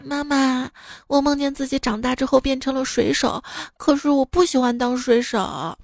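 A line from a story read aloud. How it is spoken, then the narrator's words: Frightened crying little pig. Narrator (Chinese): 一个小猪从噩梦中惊醒，哭着对妈妈说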